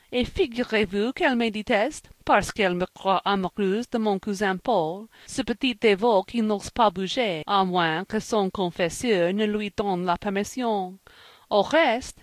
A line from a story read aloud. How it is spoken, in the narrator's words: laughed she